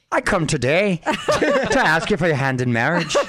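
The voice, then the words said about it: Put-on Irish accent, fairly good. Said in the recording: “Number 3, Irish. ... That's not bad.”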